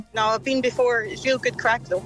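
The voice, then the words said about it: Scottish accent. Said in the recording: “A Scottish accent. Is it? ... The west of Glasgow.”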